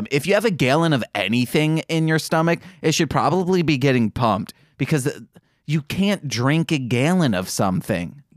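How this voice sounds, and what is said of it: Michigan accent on A vowels. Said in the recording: “The way you're saying that just sounds weird. ... That's my Michigan accent coming out, guys. It's only with A's. ... I'm going full on Michigan.”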